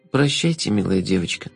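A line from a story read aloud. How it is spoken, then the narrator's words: Barely audible chuckle. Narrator (Russian): еле слышно усмехнулся трубочист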